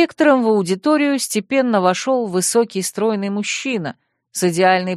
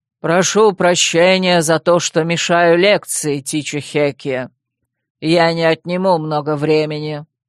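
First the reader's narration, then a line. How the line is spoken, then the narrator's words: Booming voice. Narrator (Russian): Вервульф вошел и произнес громогласным голосом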